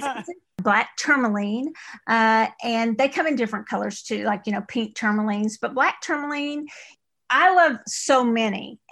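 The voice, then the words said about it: East Texas accent. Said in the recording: “That's my East Texas accent”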